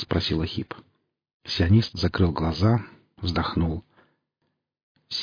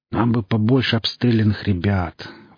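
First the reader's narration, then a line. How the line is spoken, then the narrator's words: Exhaled. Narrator (Russian): выдохнул сионист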